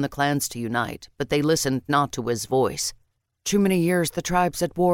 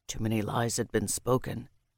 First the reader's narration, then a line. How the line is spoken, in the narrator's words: Keeler said softly